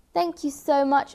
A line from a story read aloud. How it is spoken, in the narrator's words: exclaimed Fluffy